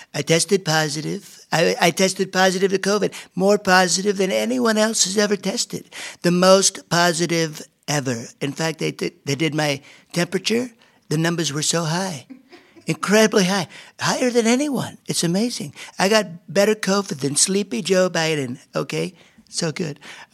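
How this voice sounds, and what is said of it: Donald Trump impression. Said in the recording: “a Donald Trump impersonator”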